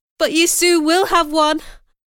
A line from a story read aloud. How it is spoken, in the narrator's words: cried